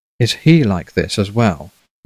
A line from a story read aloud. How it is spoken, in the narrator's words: Meriwether asked, his voice gentle as warm flannel